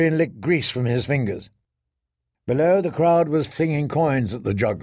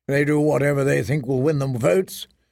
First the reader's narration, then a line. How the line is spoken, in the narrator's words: said Mormont